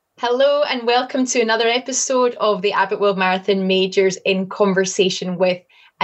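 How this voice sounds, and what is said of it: Scottish accent. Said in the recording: “Scottish accent is the absolute best”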